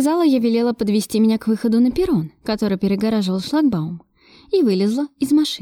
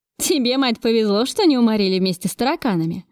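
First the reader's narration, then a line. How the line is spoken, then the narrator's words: Laughing driver. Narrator (Russian): Засмеялся шофер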